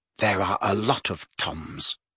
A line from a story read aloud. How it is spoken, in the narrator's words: muttered Riddle